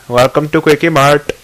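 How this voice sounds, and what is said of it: Put-on Indian accent. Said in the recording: “I can do other accents. I do very good Indian accent. Very good. Very, very good.”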